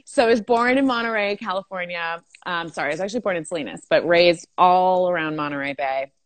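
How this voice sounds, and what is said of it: Thick Valley girl accent. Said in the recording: “if you can't tell from my voice, I am born and raised in California. Born, I got a thick Valley girl accent”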